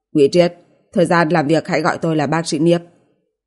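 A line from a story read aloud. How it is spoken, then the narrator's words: Cold indifferent tone. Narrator (Vietnamese): Sắc mặt Niếp Duy Bình càng lạnh lùng, ngữ khí hờ hững nói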